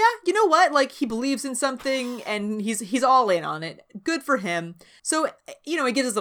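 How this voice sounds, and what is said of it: Usual voice. Nothing is said of it.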